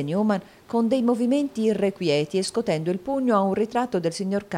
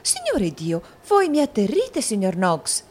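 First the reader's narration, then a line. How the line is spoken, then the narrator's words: Frightened exclamation. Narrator (Italian): esclamò la signorina Lacrivi impallidendo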